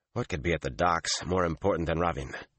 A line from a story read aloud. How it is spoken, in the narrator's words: He growled